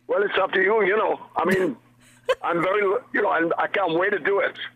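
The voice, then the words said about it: Welsh accent blended with LA. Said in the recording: “the Pontypridd and the LA accent is just morphing beautifully into each other”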